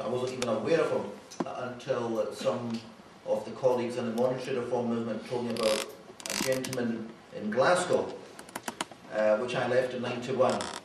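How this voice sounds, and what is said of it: Scottish Glaswegian accent. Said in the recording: “I've got a Scottish or Glaswegian accent”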